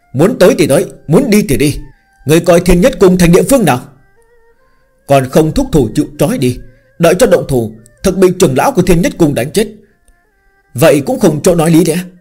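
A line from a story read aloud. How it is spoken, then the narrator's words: Clamorous laughing crowd shouts. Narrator (Vietnamese): các tu sĩ xung quanh đều kinh hồ nao nao, sau đó cười to, nhao nhao quát tháo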